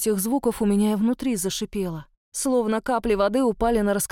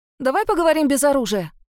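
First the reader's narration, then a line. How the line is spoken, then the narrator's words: Shout hiding trembling voice. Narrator (Russian): выкрикнула я, стараясь не выдать предательскую дрожь в голосе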